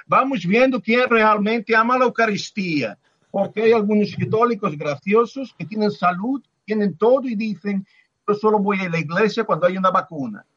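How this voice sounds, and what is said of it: Put-on Brazilian accent. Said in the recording (Spanish): “lo voy a decir con acento brasileño ... nos ponemos a imitar voces”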